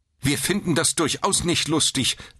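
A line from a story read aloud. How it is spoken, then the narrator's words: Stern reply. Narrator (German): erwiderte die Schwester streng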